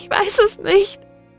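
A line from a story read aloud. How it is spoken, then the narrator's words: Sobbing. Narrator (German): schluchzte sie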